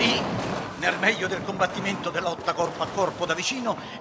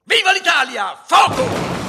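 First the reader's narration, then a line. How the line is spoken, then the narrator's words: Yelling. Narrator (Italian): Ninetto urlò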